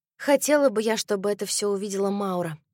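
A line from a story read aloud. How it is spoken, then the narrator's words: Soft. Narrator (Russian): мягко сказала я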